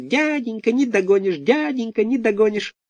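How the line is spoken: Teasing squeak. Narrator (Russian): Буратино дразнясь, запищал

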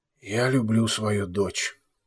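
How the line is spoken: Quiet. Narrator (Russian): тихо сказал барон

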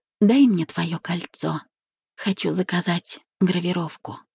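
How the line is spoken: Sniffling, smiling whisper. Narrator (Russian): Шмыгнув носом, Вика улыбнулась и прошептала

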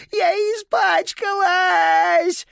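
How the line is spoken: Siren-like wail. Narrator (Russian): взвыла сиреной

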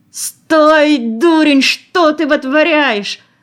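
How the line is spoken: Howling. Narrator (Russian): Взвыл изыскатель

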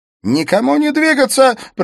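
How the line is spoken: Shout. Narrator (Russian): прокричал Смит

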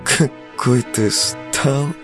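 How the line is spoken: Silly giggle. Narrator (Russian): Она глуповато хихикнула

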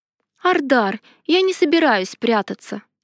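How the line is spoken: Calm voice. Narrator (Russian): сказала спокойно

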